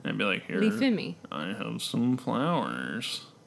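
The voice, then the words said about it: Silly turtle character voice. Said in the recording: “I'm doing a turtle voice.”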